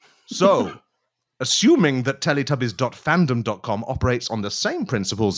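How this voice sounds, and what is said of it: Usual voice. Nothing is said of it.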